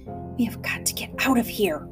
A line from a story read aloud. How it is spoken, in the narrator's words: whispered Catherine